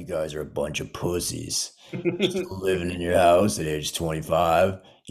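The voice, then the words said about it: Imitates a very deep voice. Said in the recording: “his voice is so deep”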